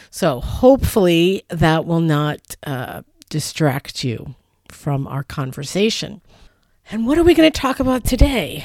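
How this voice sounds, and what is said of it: Slightly raspy voice. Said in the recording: “my slightly raspy voice. I have a little bit of a cold,”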